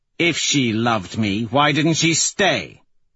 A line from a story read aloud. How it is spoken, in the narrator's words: He says sharply